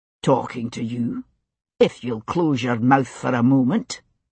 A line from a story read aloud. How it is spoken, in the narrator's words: Jamie said coldly